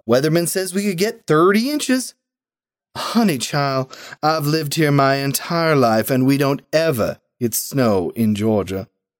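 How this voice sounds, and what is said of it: Southern American accent. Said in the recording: “The nurse allows her southern accent to slip out.”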